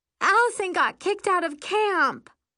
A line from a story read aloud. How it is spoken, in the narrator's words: she wails